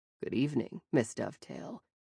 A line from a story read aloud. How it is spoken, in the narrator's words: he said, his voice a soothing baritone